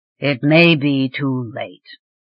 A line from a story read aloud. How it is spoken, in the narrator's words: Treyvan rumbled